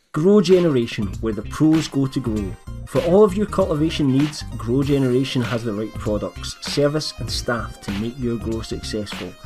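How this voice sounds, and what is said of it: Scottish accent. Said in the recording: “this Scottish guy's accent”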